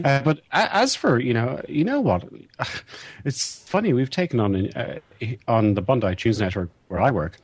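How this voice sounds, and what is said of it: Mid-Atlantic broadcaster accent. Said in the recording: “I still have this rather awkward mid-Atlantic accent that you get when you work on broadcasting for so long. I have not taken on the accent of Australia”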